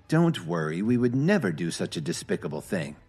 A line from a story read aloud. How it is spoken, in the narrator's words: Phoebe answered sharply